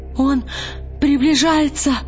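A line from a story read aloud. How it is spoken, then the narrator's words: Sobbing shout. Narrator (Russian): Рыдающим голосом крикнул Бальтамос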